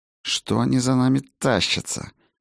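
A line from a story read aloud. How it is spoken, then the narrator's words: Hissing through teeth. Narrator (Russian): сквозь зубы прошипел Хаген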